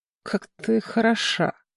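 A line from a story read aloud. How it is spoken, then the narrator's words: Quiet. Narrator (Russian): негромко сказал он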